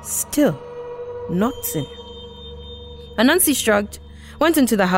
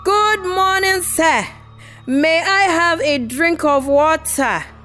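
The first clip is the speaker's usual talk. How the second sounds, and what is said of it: Very loud shouted voice. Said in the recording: “repeated in a very loud voice”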